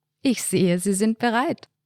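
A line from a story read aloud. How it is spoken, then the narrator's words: Warm laughing joke. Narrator (German): Albrecht lachte ein warmes Lachen und sagte scherzend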